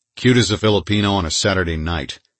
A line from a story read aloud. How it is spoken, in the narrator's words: I said harshly